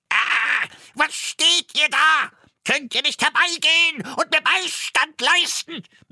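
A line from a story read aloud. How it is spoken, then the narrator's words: Shouting. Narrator (German): Er schrie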